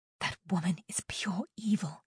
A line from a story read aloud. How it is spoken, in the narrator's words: Kyria whispered to Jade